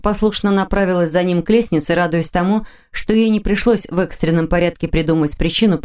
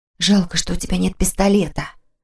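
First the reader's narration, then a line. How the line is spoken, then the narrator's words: Whispered remark. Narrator (Russian): шепотом заметила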